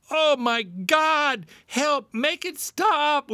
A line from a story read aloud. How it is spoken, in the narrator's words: we screamed with the same conviction as when we pleaded